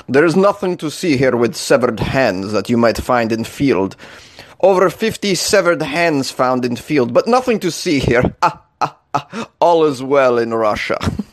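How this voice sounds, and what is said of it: Put-on Russian accent. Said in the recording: “I should say that in a Russian accent.”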